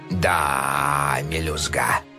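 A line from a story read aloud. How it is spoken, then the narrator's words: Old man drawling. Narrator (Russian): протянул дед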